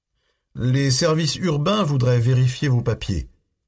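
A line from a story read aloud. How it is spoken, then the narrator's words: Conciliatory. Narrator (French): commença Russell d'un ton conciliant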